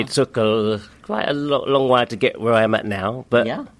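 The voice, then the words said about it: London English accent. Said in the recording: “I'm from London, born and raised in London. That's where that sexy accent comes from.”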